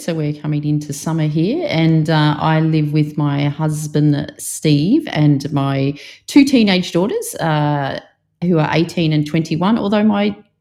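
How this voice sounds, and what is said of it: Australian accent. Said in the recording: “I feel like I need to do my most Australian accent, considering you said you'll know it as soon as I start talking. But this is actually just my normal voice.”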